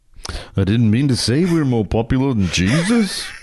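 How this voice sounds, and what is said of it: Put-on Liverpool accent. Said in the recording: “you do an accent from each of these countries ... Liverpool ... your accent”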